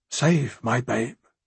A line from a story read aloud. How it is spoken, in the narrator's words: she whispered